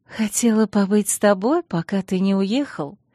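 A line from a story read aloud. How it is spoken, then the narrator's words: Purring young woman. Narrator (Russian): промурлыкала девушка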